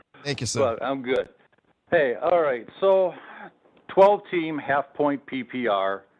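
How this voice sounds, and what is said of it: Wisconsin accent. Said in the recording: “Got that Wisconsin accent. There you go, right there.”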